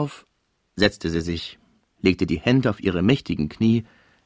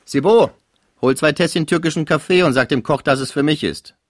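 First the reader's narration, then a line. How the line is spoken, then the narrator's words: Called out. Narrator (German): rief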